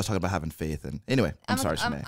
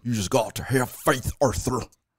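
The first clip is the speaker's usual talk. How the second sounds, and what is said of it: Impression of a video game character. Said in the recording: “That's how he talks. Who am I doing an impression of... that's Dutch Vanderlinde, the leader of the Vanderlinde gang”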